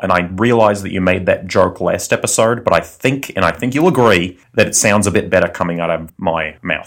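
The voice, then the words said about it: Smooth Australian accent. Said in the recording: “velvety molasses Australian accent”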